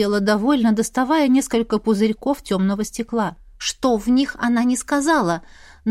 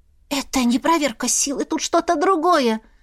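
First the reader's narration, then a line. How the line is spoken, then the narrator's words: Hoarse, feeling ill. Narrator (Russian): Прохрипела Свияра, ей, как светлой ведьме, сразу стало плохо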